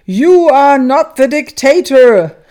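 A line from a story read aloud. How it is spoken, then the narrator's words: Calling out. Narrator (German): rief Jesus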